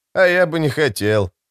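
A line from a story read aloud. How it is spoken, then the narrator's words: Wry snort. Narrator (Russian): хмыкнул Алекс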